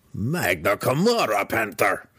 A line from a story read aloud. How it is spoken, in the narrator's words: the deep gnome growled